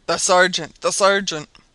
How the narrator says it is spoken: The cries were now redoubled, and Hobson exclaimed

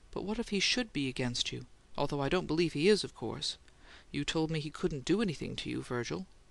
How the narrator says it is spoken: The uneasy look became vivid, and her voice was slightly tremulous now as she said

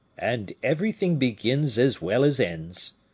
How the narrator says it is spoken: said the keeper with a coarse laugh

